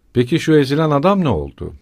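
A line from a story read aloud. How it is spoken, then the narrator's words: Shouted. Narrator (Turkish): diye bağırdı Razumihin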